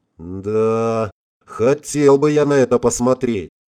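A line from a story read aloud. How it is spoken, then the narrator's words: Dreamy drawl. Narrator (Russian): Мечтательно протянул пилот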